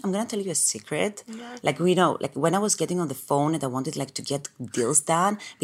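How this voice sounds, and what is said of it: Greek accent. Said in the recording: “she has a Greek accent”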